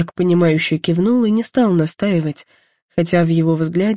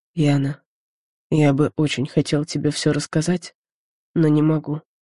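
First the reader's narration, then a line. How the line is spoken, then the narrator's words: Quiet. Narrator (Russian): он тихо произнес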